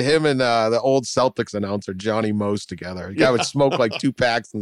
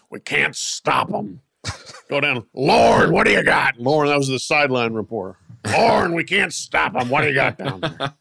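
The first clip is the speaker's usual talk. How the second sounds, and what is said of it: Gravelly radio announcer voice impression. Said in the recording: “Gravelly voice”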